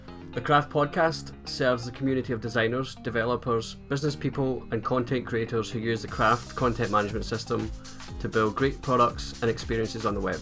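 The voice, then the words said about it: Scottish accent. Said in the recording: “sexy Scottish accent”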